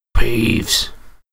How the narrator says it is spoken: he said in a hoarse whisper

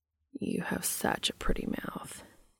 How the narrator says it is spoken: Cass murmurs

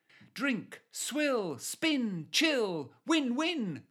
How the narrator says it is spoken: cried Mike

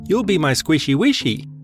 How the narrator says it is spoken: Erin cooed

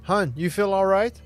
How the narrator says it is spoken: He asks nervously

